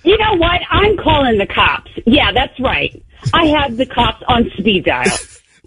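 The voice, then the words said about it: Authoritative Karen voice, Midwestern accent. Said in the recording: “She's got a little Midwestern accent, too, there.”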